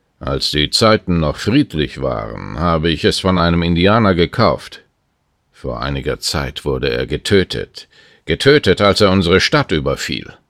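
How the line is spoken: Man's growling answer. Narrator (German): Und der Mann hatte knurrend geantwortet

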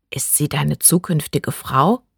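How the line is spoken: Curious sudden whisper. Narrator (German): flüsterte Bree plötzlich neugierig

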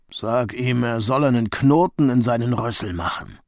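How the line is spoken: Grunted. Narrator (German): grunzte Rino

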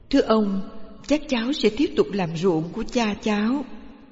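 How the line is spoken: Boy, soft and polite. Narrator (Vietnamese): Cậu nhỏ nhẹ thưa

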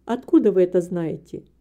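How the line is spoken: Calm reply. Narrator (Russian): Мистер Мори спокойно ответил

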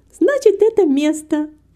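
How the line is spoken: Exclaiming. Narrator (Russian): воскликнула Герти

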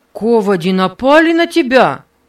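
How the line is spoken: Loud question. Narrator (Russian): спросил Нева громким голосом

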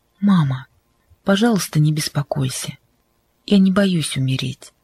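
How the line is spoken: Gentle reply. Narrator (Russian): Кристина мягко ответила

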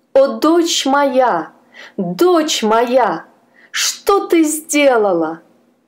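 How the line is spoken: Desperate scream. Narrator (Russian): Госпожа Сюзанна закричала отчаянным голосом

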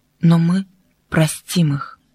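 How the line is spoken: Soft and gentle. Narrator (Russian): мягко сказала

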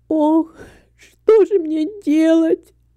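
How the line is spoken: Sobbing. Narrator (Russian): всхлипывала Люся

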